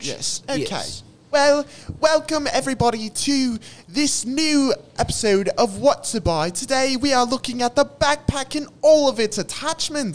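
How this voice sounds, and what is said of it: Fancy British accent, high pitch. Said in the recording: “super fancy British accent ... You have to talk quite high”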